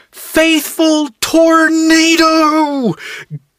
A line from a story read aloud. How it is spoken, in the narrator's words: Matt screamed at the top of his lungs